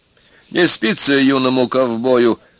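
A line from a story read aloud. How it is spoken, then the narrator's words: Fairly loud, still smiling. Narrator (Russian): громковато сказал Володя, перестав смеяться, но еще улыбаясь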